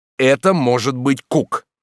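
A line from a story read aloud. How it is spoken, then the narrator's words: Excited loud shout. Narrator (Russian): От волнения крикнул громче, чем следовало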